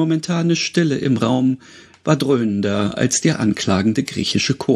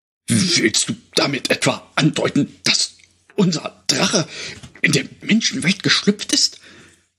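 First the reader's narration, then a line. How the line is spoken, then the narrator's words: Horrified trembling breath. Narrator (German): hauchte der Drachenhüter mit vor Entsetzen bebender Stimme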